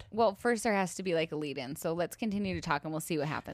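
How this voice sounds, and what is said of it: Tired, strained voice. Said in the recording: “My voice is very tired from screaming”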